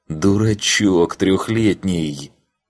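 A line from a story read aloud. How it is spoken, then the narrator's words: Groan of helplessness. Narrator (Russian): Я застонал от бессилия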